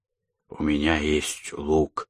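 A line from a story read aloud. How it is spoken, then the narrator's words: Hoarse sick voice. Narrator (Russian): простуженным голосом проговорил Вика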